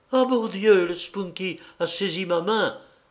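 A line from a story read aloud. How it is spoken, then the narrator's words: Cried out. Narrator (French): s'écria-t-elle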